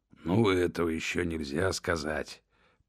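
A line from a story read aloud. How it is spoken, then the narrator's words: Grumbling. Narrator (Russian): проворчал Хаттер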